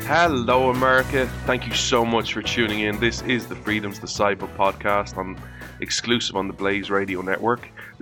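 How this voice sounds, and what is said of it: Irish accent. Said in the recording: “This Irish man ... the show, of course, that you come to for the accent”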